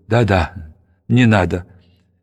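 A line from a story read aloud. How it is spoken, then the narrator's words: Broken, trembling voice. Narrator (Russian): Феликс, он сломлен, дрожащим голосом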